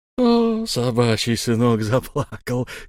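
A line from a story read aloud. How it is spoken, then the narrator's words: Mocking laugh. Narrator (Russian): издевательски засмеялся Эльм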